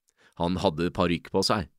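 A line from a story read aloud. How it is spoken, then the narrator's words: Plain. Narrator (Norwegian): sa Philip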